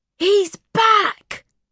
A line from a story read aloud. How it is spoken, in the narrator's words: Bobby Henderson gasped and shouted